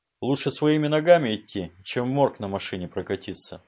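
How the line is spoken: Even, level voice. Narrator (Russian): ровным голосом произнес Борис

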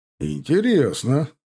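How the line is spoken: Laughing. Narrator (Russian): рассмеялся он

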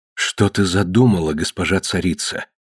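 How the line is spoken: Unusually soft. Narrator (Russian): необычайно мягко сказала Эрис

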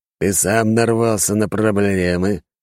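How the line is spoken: Venomous voice. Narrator (Russian): ответил тот ядовитым голосом

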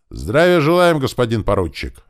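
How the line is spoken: Barked reply in unison. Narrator (Russian): рявкнул в ответ строй

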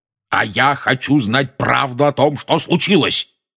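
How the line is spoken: Roared. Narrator (Russian): проревел дядя Вернон

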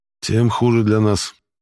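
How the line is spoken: Gloomy summing up. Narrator (Russian): мрачно подвел итог майор

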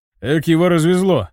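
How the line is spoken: Chuckling. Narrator (Russian): хохотнул один из дружинников

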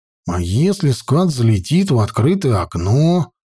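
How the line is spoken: Grumbled. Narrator (Russian): проворчал Петька

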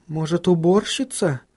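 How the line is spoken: Uncertain suggestion. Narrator (Russian): неуверенно предположила она

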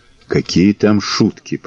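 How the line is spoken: Whispered. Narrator (Russian): прошептал Белобрысый

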